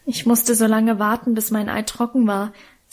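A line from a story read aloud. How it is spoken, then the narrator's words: Plain. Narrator (German): sagte er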